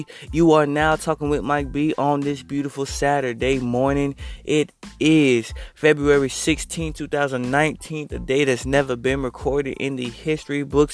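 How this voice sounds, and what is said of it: Sick, under-the-weather voice. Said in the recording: “you can probably tell by my voice that I'm a little under the weather”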